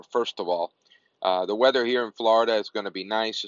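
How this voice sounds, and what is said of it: Unwell-sounding voice. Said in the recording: “I'm a little bit under the weather, so you'll have to excuse my voice”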